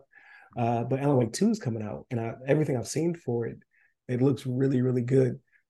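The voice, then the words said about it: Hoarse, strained voice. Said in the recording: “Excuse me, I'm losing my voice.”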